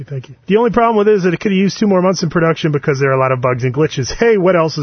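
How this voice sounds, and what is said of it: Usual voice. Nothing is said of it.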